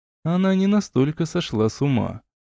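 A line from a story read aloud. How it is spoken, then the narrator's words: Sad, smiling. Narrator (Russian): грустно улыбнулся наследник короны Милора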